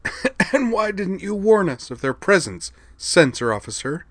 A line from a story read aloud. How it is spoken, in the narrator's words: the coughing voice of Xenia Dessler replied angrily